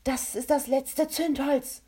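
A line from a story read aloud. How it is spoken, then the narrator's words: Calling out. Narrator (German): rief Kovak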